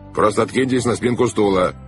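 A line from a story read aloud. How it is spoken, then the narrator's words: Sharp command. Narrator (Russian): резко приказал капитан Шем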